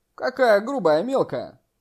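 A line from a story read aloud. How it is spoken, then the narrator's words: Laughing. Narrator (Russian): Джан Ян рассмеялся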